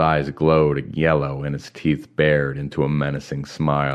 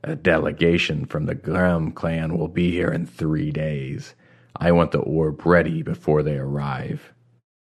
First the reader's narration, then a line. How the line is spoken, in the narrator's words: he added in a low voice